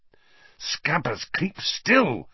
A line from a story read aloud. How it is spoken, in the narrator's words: Ron hissed